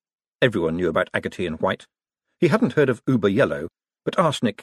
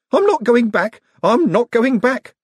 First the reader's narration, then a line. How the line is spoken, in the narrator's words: squeaked Alswick